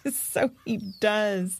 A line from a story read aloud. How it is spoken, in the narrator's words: chuckled Annalise